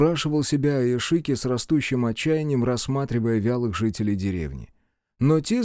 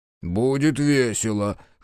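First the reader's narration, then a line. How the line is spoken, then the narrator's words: Laughing. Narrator (Russian): хохотнул Соба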